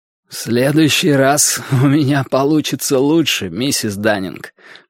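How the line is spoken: Creaky voice. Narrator (Russian): проскрипел я

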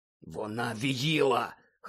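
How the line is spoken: Hoarse. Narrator (Ukrainian): хрипко сказав він

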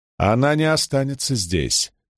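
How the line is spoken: Calm objection. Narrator (Russian): спокойно возразил Гавин

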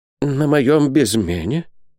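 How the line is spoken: Merchant's whisper. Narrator (Russian): прошептал торговец

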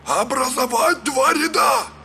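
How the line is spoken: Rattling, breaking shout. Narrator (Russian): крикнул Тахин с головой ворона, дребезжащим, срывающимся голосом

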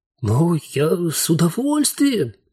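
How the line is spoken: Ghost exclaiming. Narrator (Russian): воскликнул призрак

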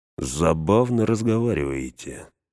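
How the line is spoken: Soft eerie voice. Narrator (Russian): мягко сказал жуткий голос

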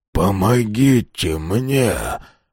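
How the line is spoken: Hoarse wheeze. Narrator (Russian): прохрипел Хьюстон

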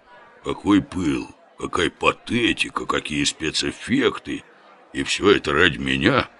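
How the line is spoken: Innocent muttering. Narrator (Russian): невинно бормотал Оболенский

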